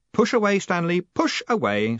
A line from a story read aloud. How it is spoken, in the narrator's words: said Moist cheerfully